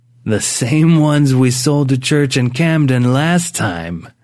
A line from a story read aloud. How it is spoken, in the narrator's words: Drift laughed